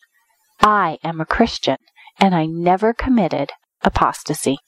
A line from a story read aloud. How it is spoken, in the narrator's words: she calmly and quietly told the judge